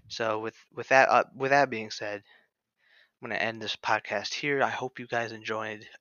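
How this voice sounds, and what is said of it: Tired, slurred and stuttering speech. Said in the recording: “I'm slurring all my words, stuttering. I'm tired.”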